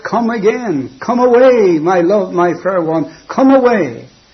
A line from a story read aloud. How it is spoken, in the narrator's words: he's going to shout